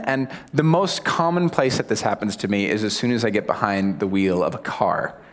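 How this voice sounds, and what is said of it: American accent. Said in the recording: “my accent gives me away. So obviously I'm American”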